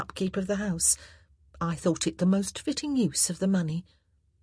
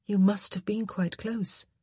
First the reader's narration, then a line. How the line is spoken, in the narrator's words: Daphne murmured